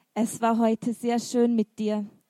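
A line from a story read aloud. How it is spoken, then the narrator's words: Gentle. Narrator (German): sagte Julian sanft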